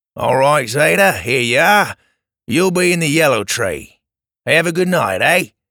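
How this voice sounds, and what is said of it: Australian accent. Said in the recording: “He asked in an Australian accent.”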